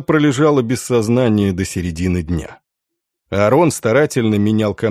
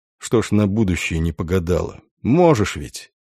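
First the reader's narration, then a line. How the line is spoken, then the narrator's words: Quiet, gentle. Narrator (Russian): Сенкевич тихо проговорил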